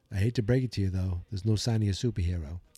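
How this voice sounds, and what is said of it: Put-on accent for character dialogue. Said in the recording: “I don't know why I'm talking with that accent.”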